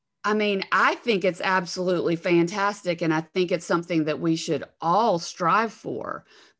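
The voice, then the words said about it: Southern US accent, Alabama. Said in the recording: “in the South, the Southern part of the United States where I live, I'm sure you can tell from my accent, ... I'm from Alabama”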